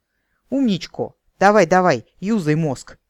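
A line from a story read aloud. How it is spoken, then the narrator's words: Impatient shout. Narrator (Russian): нетерпеливо прикрикнул следователь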